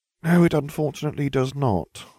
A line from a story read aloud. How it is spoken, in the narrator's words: I sighed